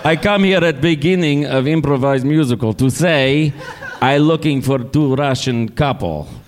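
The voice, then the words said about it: Put-on foreign accent. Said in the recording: “This is the accent. This is the impression.”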